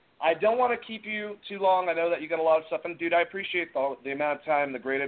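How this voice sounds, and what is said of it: Usual voice. Nothing is said of it.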